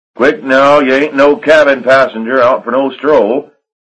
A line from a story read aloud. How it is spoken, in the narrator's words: Harry Mike yelling